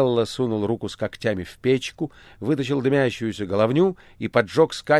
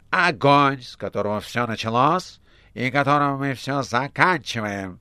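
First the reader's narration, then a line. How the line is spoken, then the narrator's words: Brief cheerful boom. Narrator (Russian): В небе прогремело весело и коротко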